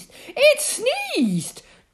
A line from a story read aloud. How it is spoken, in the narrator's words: cried the queen in alarm